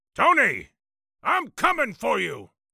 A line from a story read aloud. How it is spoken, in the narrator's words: bellowed